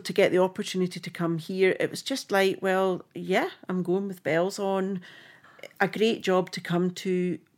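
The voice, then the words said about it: Strong rough Scottish accent. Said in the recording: “I'm Scottish through and through ... that accent is as rough as dogs”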